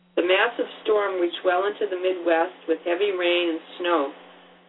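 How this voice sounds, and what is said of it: Hoarse, strained voice. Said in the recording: “I'm kind of losing my voice.”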